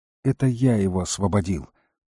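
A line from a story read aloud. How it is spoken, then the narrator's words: Weary. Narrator (Russian): устало поморщился Тилорн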